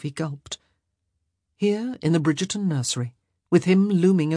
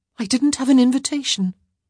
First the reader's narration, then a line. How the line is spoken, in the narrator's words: she said hastily